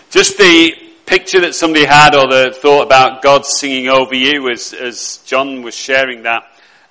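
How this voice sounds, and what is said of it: Lancashire English accent. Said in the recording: “you might think I've got the same accent as John, but I haven't at all. His is Yorkshire, mine's Lancashire and there is a very, very clear difference.”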